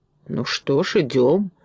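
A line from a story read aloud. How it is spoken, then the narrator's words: Grumbling. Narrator (Russian): проворчал Фарамант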